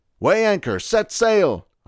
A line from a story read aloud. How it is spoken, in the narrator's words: shouted